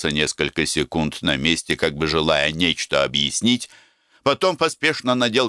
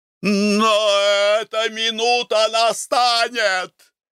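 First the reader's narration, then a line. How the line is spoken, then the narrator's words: Shout. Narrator (Russian): крикнул он мне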